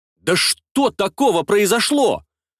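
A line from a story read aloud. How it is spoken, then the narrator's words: Indignant bewildered exclamation. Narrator (Russian): Возмущенно и недоуменно восклицаю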